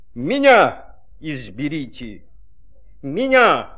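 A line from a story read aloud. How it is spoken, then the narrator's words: Shout. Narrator (Russian): закричало слово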